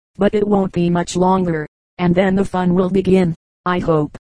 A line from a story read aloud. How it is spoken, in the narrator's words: Ping Wong said